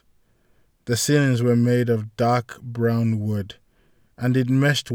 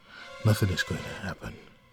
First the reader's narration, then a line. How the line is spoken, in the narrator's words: she muttered